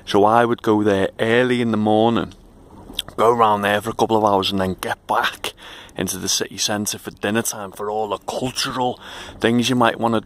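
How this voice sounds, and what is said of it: Liverpool English accent. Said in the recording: “But obviously I'd say that. Listen to my accent.”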